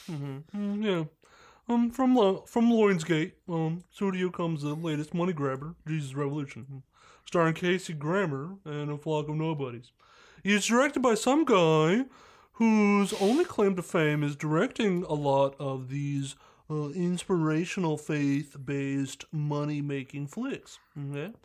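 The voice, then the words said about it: Mr. Mackey cartoon character voice. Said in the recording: “this accent ... The Mr. Mackey.”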